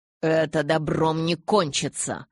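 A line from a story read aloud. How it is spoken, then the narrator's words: Grumbled. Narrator (Russian): пробурчал Амон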